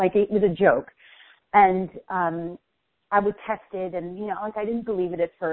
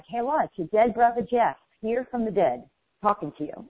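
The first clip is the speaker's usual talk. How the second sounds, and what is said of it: Imitated New York accent. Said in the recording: “he had a New York accent, and he was very funny”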